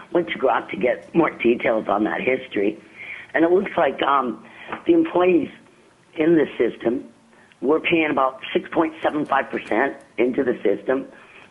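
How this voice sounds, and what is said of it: Voice sounds sick. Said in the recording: “excuse my voice,... I'm a little sick today”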